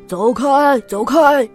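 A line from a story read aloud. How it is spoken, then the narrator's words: Blaring ship whistle. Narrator (Chinese): 汽笛大吼大嚷着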